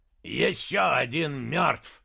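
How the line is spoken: Growled. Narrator (Russian): прорычал он

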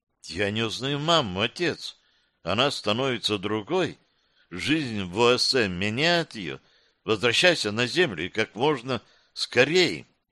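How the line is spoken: Daughter's quiet whisper. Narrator (Russian): дочь тихим голосом прошептала

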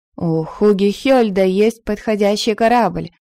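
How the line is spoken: Plain. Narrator (Russian): сказала она

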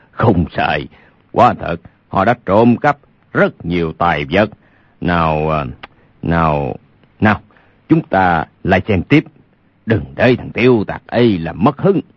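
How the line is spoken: Loud chuckling speech. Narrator (Vietnamese): Lục Trang Chủ khà khà cười lớn nói

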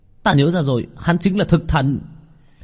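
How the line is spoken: Sudden realizing exclamation. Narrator (Vietnamese): giống như nghĩ đến cái gì kêu lên

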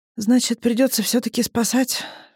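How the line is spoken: Sighing. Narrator (Russian): вздохнула Алиса

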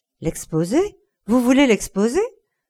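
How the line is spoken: Frightened exclamation. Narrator (French): s'exclama Dorian Gray, envahi d'un étrange effroi

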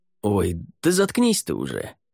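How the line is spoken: Grumbling. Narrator (Russian): проворчал Рай

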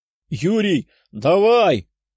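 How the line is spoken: Shout. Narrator (Russian): крикнул высокий, но худой парень

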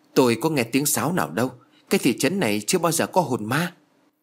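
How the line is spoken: Trembling male voice. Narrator (Vietnamese): Giọng của ông run rẩy

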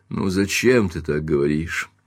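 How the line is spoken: Gentle, affectionate. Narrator (Russian): ласково сказал Каупервуд

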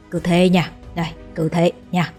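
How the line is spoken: Old man whispering. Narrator (Vietnamese): Lão lùng ghé vào tai ánh thì thầm

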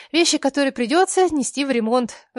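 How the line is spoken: Sighing. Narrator (Russian): вздохнула я

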